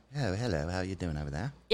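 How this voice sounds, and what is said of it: Unconvincing put-on British accent. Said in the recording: “Is that British? That doesn't sound that British.”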